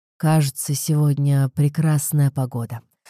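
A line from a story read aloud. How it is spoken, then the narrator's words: Deep voice, ironic. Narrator (Russian): промолвил он своим великолепным глубоким голосом, в котором сейчас сквозили иронические нотки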